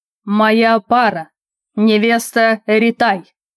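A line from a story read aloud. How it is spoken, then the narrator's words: Roaring across the hall. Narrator (Russian): в буквальном смысле проревел на весь зал Арнар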